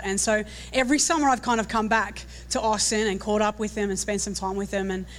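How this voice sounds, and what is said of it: Australian accent. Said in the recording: “can you put up with an Aussie for a little bit today? ... Is my accent a little bit too strong?”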